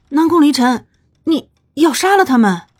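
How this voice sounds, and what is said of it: Quiet, hesitant question. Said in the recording (Chinese): “小声的问了一句”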